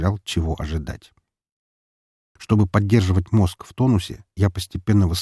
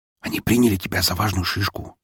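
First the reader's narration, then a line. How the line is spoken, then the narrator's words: Whispered. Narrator (Russian): шепнул мой друг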